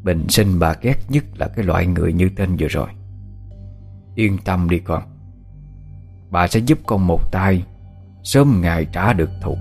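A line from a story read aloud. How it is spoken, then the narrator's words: Cold, murderous. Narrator (Vietnamese): bà Tự bỗng ánh lên một tia sát ý, bà lạnh lùng đáp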